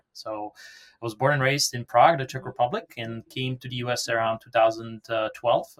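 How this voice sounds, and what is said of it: Foreign accent in English. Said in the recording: “as you can hear from my accent, I'm not from around here.”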